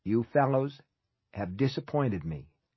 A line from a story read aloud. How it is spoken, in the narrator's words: he said